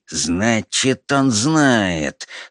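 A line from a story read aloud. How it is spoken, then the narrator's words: Through gritted teeth. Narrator (Russian): сквозь зубы проговорил великий князь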